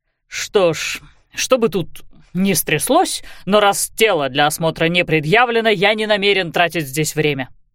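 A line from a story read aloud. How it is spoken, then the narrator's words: Barked. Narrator (Russian): рявкнул в сторону инспектора дивизионный хирург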